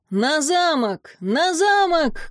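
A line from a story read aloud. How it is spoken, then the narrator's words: Group shouting. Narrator (Russian): кричали они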